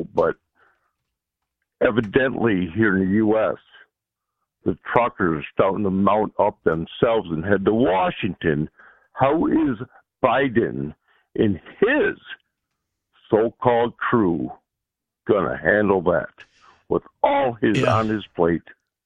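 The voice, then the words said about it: Rough, hoarse voice. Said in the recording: “excuse my voice, ... I got a little rough throat”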